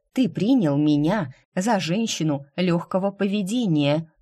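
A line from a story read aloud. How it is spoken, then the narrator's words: Snorting reminder. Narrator (Russian): хмыкнув, напомнила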